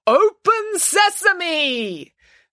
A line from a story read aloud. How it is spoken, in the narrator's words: Their leader called out the words